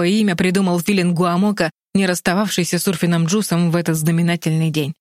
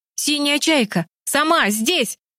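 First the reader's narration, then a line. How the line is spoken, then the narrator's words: Yelled. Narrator (Russian): завопил Тим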